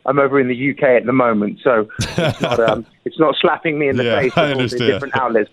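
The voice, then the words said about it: Strong British accent. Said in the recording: “Your accent has become way stronger than when I met you. ... In terms of more British? ... Yes.”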